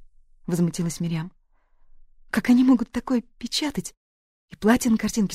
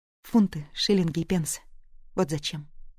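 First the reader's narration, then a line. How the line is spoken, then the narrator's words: Plain. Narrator (Russian): сказала Этель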